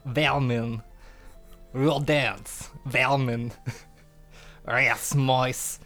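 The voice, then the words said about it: Put-on foreign accent. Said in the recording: “you do have somewhat of an accent.”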